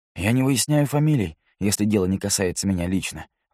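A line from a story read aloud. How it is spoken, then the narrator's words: Plain. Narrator (Russian): ответил Стюарт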